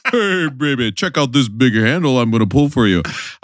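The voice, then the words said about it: Imitates another person's voice. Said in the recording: “my big bopper impression.”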